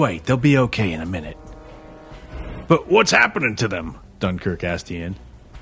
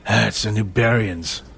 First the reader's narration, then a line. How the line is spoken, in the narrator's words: Ian growled